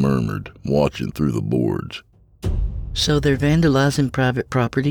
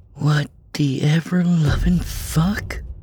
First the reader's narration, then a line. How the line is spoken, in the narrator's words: Ann breathed